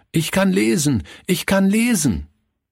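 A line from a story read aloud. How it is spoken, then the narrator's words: Called out to everyone. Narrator (German): rief er jedem zu, der in Hörweite kam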